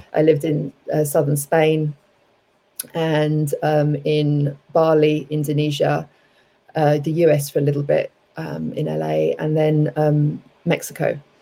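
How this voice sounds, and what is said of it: London English accent. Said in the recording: “I grew up in London, everyone might be able to tell from my accent.”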